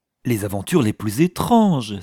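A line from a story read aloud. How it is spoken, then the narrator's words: Enthusiastic exclamation. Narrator (French): s'écria Pickering avec enthousiasme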